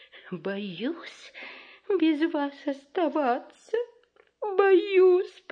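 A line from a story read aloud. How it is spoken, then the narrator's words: Moaning. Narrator (Russian): простонала Мальвина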